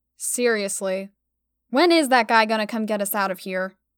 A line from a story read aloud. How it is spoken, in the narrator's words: Stella sighed out